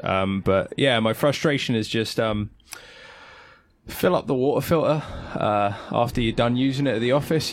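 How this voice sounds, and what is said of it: Frustrated, annoyed tone of voice. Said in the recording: “it's clearly a frustration. I'm sure you can tell by my voice.”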